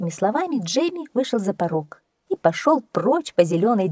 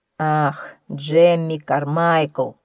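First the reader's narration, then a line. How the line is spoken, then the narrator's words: Sigh. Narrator (Russian): вздохнул он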